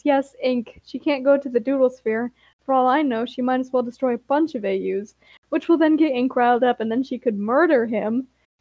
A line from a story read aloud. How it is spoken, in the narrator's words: Ember sighs and says